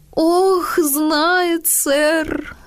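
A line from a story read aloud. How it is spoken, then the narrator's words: Sobbing. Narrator (Russian): зарыдала Нэнси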